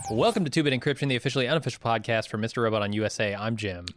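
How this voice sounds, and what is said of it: Very fast speech. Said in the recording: “I said that really fast. ... I got to slow my speech down here a little bit. Take a breath.”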